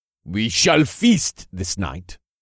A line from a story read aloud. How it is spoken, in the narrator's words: the chief said with a heavy accent